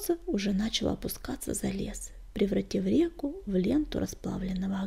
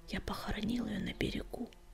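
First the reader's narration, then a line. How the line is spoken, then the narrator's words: Whispered. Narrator (Russian): прошептал он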